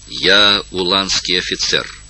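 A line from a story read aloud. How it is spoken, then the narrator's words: Plain answer. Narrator (Russian): ответил пленник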